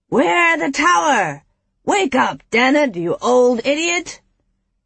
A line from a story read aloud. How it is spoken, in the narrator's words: Samson cupped his hands and shouted